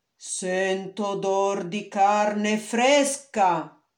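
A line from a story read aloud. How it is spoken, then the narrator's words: Ogre's thundering voice. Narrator (Italian): tuonò l'orco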